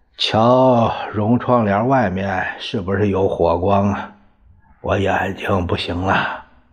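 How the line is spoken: Sighing. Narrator (Chinese): 何应钦叹了一口气

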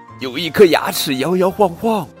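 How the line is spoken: Screaming. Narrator (Chinese): 女仆尖叫

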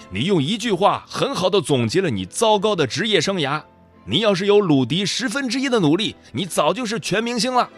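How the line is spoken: Furious loud scolding. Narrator (Chinese): 教练也怒不可遏，大声怒斥道

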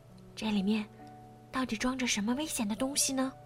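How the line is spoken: Fearful muttering. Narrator (Chinese): 他惶恐的嘟囔着

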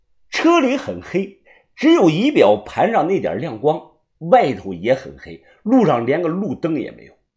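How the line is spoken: Laughing. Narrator (Chinese): 小五笑道

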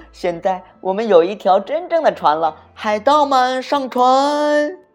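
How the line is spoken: Happy shout. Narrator (Chinese): 玻璃反而开心的大叫

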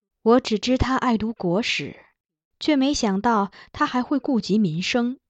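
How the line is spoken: Empress sighing admiringly. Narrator (Chinese): 皇后感叹

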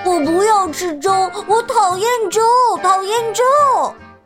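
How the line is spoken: Little bear's pinched-nose shout. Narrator (Chinese): 小熊捏着鼻子，闭着眼睛叫起来

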